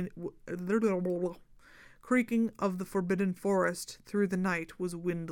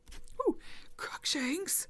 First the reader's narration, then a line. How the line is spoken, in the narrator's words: wheezed Hermione, bent double, clutching her chest